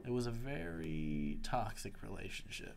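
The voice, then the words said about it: Speaks in a put-on accent. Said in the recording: “I was focusing too hard on the accent”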